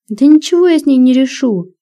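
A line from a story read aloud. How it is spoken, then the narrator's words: Desperate exclamation. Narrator (Russian): в отчаянии воскликнул он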